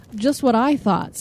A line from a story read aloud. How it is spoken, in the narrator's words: said Mr